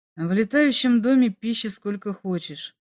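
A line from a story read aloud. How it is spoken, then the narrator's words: Sad, sighing. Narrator (Russian): сказал Бато и грустно вздохнул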